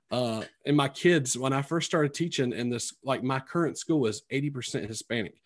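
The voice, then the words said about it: Twangy rural North Carolina accent. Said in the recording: “you can tell by my accent, it's very twangy because I'm originally from Sampson County, which is, you know, south of Raleigh”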